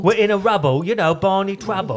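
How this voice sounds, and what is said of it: Exaggerated fake Cockney accent. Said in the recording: “Don Cheadle's accent ... it's basically, it's Dick Van Dyke from Mary Poppins ... occasionally he calls things bruv”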